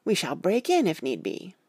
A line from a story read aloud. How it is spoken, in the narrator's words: I cried